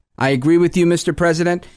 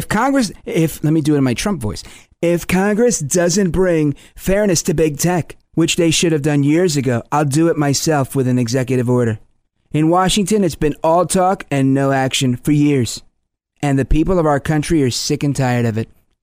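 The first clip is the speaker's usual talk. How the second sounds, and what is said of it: Imitates another person's voice. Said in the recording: “I'm always working on my Trump impression, by the way.”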